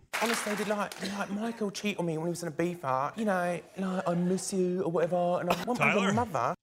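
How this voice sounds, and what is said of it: Fake British accent. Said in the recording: “that's a British accent ... It sounded like a fake one, though.”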